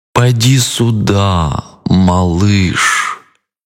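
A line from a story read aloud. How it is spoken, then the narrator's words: Drawling. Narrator (Russian): протянул крокодил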